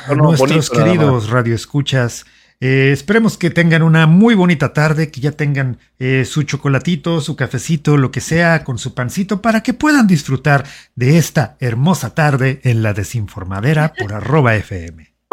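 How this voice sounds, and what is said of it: Radio announcer voice. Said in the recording (Spanish): “tienes buena voz ... Sí tienes buena voz de locutor.”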